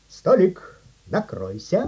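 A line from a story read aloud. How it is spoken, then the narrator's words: Quiet. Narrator (Russian): негромко сказал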